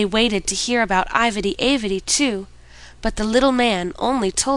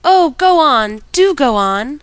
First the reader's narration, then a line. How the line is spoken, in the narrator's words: the children clapped their hands and cried out